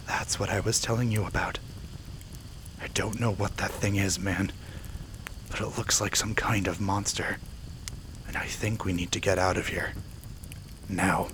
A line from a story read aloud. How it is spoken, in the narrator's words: Warily, Jacob walked over to Kenny and whispered